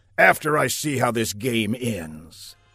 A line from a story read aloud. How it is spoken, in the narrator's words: the general growled